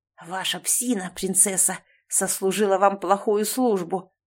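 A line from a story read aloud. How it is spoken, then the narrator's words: Hiss. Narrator (Russian): прошипел Роланд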